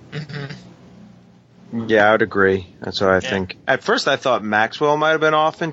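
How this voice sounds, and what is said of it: New York accent. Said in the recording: “I say that with my New York accent.”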